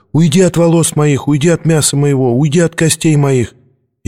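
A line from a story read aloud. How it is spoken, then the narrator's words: Thin high-pitched shout. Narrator (Russian): Тонкий голос выкрикнул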